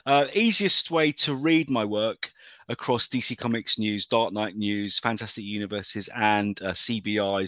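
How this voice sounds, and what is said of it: British accent. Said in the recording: “these dulcet tones in a British accent”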